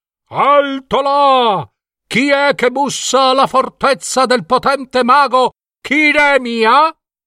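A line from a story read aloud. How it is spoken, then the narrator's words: Guards shouting. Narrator (Italian): le guardie incoccarono le frecce gridando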